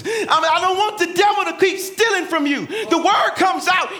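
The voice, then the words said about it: Yelling. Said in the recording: “sorry I'm yelling”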